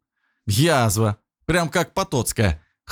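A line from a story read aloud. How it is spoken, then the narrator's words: Wry snort. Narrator (Russian): хмыкнул Никита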